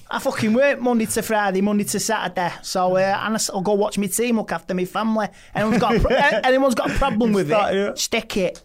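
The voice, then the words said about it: Manchester accent. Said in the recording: “I don't know how you keep that accent up, you know. ... I'm man born and bred, lad.”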